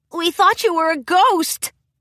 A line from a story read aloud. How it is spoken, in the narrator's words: Spike exclaimed in relief